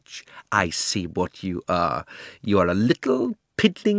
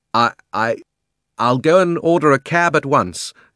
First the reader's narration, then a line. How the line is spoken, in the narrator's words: gasped Uncle Andrew